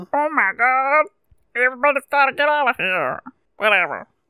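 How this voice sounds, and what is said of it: Cartoon character voice imitation. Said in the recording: “You're nailing that. ... imitation. ... It's like that idea, but it's like a man's voice.”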